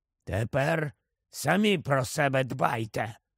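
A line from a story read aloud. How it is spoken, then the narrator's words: Grumbling. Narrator (Ukrainian): буркнув Еберфорс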